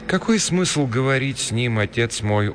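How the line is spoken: Dejected. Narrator (Russian): уныло проговорила Рита

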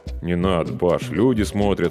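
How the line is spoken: Embarrassed mumble. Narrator (Russian): смущенно пробормотал я

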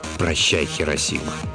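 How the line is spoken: Whisper. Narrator (Russian): Он прошептал

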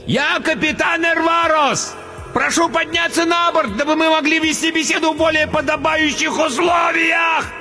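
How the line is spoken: Bellowing over storm. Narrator (Russian): Проревел, перекрывая вой метели, толстяк

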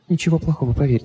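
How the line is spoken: Whisper. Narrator (Russian): прошептала она

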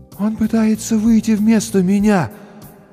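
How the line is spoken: Muffled, as if distant. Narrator (Russian): Голос Маши звучал глухо, словно издалека

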